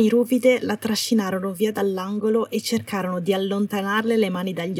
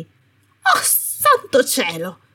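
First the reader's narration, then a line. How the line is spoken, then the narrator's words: Sharp, impatient tone. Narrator (Italian): disse la Umbridge con tono tagliente e impaziente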